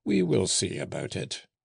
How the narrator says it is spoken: exclaimed Gilet, laughing

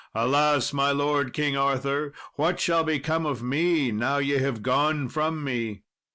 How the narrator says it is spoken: when Sir Bedivere saw it departing, he cried with a bitter cry

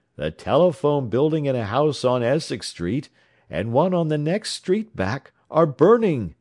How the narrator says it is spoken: he cried

